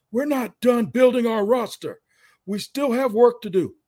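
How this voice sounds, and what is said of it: Raspy imitation of another person's voice. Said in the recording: “my best Trent Baalke impersonation ... with that raspy voice of Trent Baalke's”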